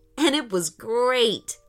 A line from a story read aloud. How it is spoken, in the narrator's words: laughed Aiden